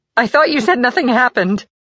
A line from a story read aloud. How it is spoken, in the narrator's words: cried out Lancaster